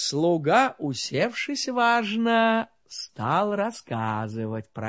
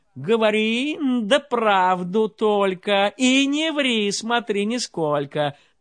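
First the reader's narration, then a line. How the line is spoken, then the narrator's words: Shouted. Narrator (Russian): царь с кровати закричал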